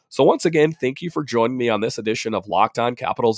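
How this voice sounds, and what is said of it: Congested, slightly winded voice. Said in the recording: “my voice is a little off ... I was a little winded and, you know, a congestion. You can tell my voice is all messed up”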